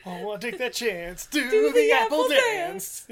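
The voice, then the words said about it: Imitates another person's voice. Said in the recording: “My voice seemed a little crackly there at the beginning. But that was actually ... Doing a fucking pitch perfect impression.”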